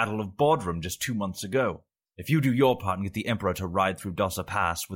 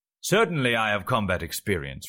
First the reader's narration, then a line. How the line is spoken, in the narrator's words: replied Miramor haughtily